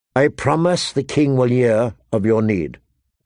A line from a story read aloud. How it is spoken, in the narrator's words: Tyrion said gravely